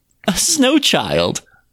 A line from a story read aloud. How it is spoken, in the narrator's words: laughed Masha